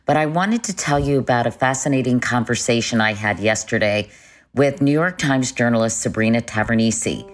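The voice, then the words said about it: Low, deep morning voice. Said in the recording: “I haven't talked this morning. That's why my voice is so low.”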